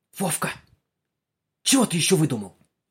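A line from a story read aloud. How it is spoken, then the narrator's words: Hiss. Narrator (Russian): зашипела Галка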